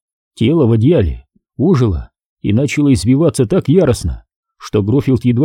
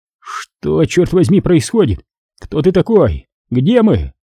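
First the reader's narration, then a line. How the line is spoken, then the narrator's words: Weak, frightened. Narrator (Russian): голос выдавал его, прозвучав слабо и испуганно, когда он спросил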